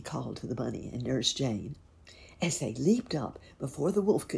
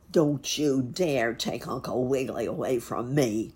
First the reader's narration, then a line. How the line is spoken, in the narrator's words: howled the wolf, for well he knew he could not run as fast as a horse